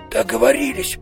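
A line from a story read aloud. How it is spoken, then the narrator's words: Hoarse, noisy spitting. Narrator (Russian): прохрипел он, шумно отплевываясь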